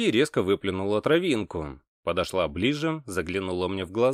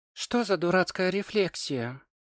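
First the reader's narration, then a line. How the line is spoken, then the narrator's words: Quiet but harsh. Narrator (Russian): Негромко, но жестко произнесла она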